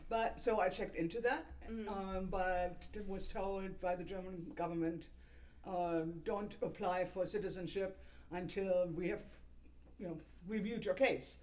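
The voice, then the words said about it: German accent. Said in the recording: “I am who I am, and the accent is still there.”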